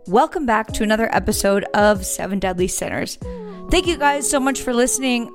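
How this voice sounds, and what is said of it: Hoarse, congested voice. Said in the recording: “my hoarse voice ... I've been snorting allergies ... it feels like I have cement in one of my nostrils. So my voice has been hoarse for, I would say, like 3 weeks.”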